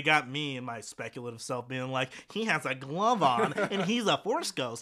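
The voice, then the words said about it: Nerdy character voice. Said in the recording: “it's my nerd voice.”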